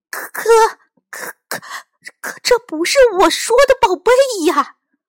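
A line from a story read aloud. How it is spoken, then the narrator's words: Stunned stammering. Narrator (Chinese): 金牙船长目瞪口呆 结结巴巴地说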